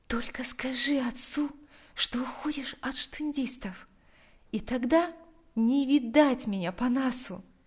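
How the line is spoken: Quiet. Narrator (Russian): тихо произнесла она

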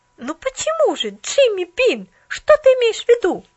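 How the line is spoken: Exclaimed. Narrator (Russian): воскликнула Поллианна

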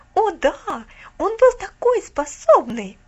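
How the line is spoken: Exclaimed. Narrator (Russian): воскликнула Алида

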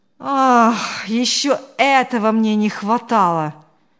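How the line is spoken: Sighing man. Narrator (Russian): вздохнул Павел

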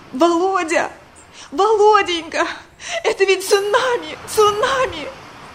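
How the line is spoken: Hysterical sobbing. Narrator (Russian): в истерике зарыдала

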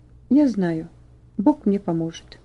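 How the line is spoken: Quiet but firm. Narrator (Russian): Ваня сказал тихо, но твердо

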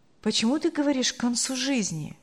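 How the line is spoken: Gentle reproach. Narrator (Russian): мягко укорил ее муж

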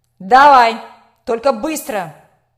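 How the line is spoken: Barked. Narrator (Russian): рявкнул директор

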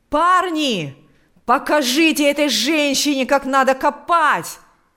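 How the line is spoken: Shouting. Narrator (Russian): кричал он

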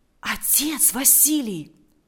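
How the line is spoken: Whispering. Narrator (Russian): прошептал Валериан

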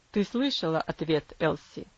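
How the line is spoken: Father's cold voice. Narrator (Russian): холодно произнес отец

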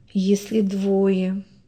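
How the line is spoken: Sad, pensive repetition. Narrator (Russian): грустно и задумчиво повторила она

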